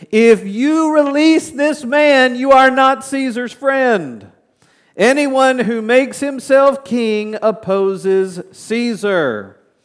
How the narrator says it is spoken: the Jews shouted

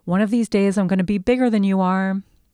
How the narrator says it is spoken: yelling

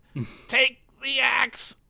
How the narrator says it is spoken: Mutt screamed

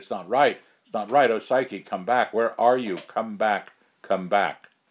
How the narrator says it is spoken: I cried

